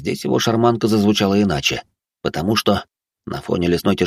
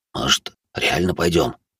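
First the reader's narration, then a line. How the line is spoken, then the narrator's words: Quiet. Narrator (Russian): тихо сказал третий друг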